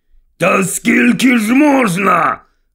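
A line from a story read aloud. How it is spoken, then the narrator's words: Barked. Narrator (Ukrainian): гаркнув Вернон Дурслі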